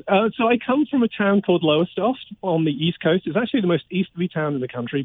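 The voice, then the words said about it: British English accent. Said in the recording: “what part of Britain do you hail from ... you detected the accent. Most people think Australia or New Zealand.”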